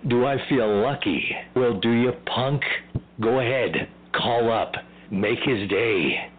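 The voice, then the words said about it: Celebrity voice impersonation. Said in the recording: “That was Celebrity Voice Impersonation”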